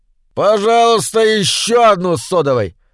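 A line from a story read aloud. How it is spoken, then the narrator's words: Pointedly loud. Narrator (Russian): Подчеркнуто громко заказал Доус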